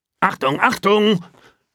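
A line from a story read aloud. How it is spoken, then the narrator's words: Warthog grunt. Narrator (German): grunzt da das Warzenschwein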